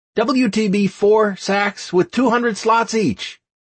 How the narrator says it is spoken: I shouted

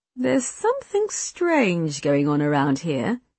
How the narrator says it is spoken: Mother said slowly

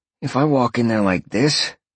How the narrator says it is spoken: Sean sighed

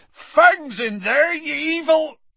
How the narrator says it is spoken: Hagrid bellowed

